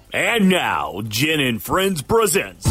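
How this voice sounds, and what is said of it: Big game-day stadium announcer voice. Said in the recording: “put on my big Braves voice ... So much good game day voice.”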